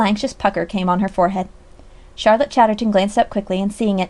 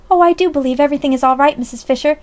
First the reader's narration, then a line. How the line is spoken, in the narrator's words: she exclaimed involuntarily